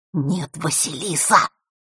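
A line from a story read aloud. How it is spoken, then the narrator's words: Whisper. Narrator (Russian): Его голос опять перешел на шепот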